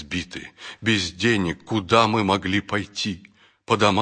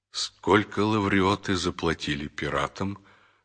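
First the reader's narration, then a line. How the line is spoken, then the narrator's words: Calm question. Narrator (Russian): спокойно спросил Савва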